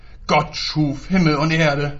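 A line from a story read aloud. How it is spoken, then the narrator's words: Roaring into room. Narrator (German): brüllte er in den Raum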